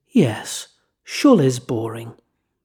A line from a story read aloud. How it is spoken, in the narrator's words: Rabbi Sacks in his soothing tones stated